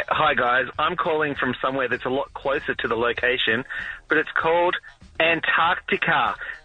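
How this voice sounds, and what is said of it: New Zealand accent. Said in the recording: “any dude from New Zealand could call me stupid ... you love the accent”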